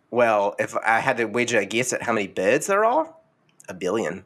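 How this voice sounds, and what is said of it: Australian accent. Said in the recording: “Don't make fun of my accent.”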